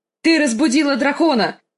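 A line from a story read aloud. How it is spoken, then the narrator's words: Shouted. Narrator (Russian): крикнул Визерис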